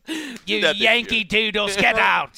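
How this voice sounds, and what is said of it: Put-on British accent, yelling. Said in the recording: “Your British accent is something to behold. ... It kind of involves yelling.”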